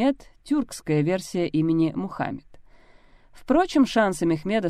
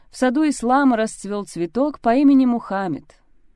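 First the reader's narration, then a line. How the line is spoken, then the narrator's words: Joyful exclamation. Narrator (Russian): Обрадованный Мурад воскликнул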